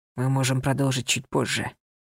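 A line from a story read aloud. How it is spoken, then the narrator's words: Whispered. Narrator (Russian): прошептал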